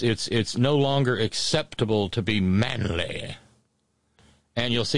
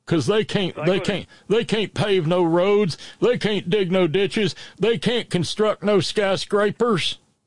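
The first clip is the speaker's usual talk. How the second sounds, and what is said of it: Put-on redneck accent. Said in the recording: “You do that accent pretty well. I'm surprised. ... redneck places”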